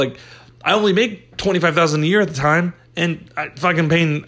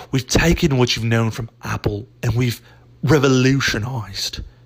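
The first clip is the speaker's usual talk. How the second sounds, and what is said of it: Put-on British English accent. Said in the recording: “when I hear revolutionize in a British or an English accent”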